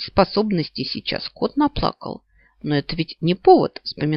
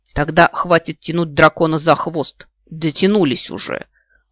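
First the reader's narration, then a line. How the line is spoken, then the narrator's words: Growled. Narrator (Russian): рыкнул Джалад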